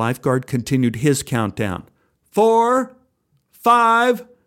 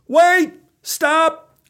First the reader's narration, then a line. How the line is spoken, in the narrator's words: yelled